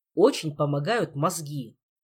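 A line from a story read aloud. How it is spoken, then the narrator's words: Angry advice. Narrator (Russian): сердито порекомендовал наставник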